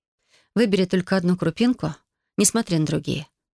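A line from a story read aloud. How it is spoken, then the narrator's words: Soft gentle voice. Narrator (Russian): начала я мягким голосом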